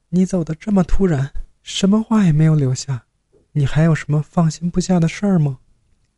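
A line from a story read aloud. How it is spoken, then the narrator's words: Woman asking while crying. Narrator (Chinese): 那女人哭泣问道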